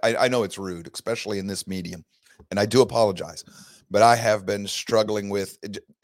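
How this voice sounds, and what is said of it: Hoarse voice from a cold. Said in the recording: “I know my voice is bad. I know I'm having trouble coughing. ... It's just a common cold. ... it has had a... effect on my voice”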